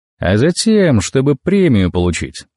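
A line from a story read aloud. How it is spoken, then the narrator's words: Muttered through clenched teeth. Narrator (Russian): снова сквозь зубы в манере вагона процедил я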